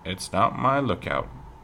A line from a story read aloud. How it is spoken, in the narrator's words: said Pa